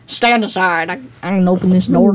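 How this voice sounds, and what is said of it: Inaccurate imitation of a character's accent. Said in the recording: “I don't think that was how her accent sounded at all.”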